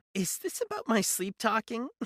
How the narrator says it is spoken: She laughed, a hollow, lifeless sound

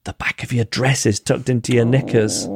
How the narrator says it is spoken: sweet old lady, whispered in my ear

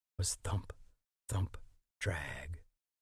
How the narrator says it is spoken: Eddie would whisper

